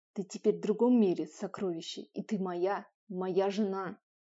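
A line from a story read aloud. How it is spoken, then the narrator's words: Growling. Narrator (Russian): Он зарычал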